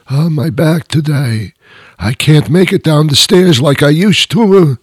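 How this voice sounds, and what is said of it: Gruff old-person voice. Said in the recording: “that little accent, that little gruff little accent”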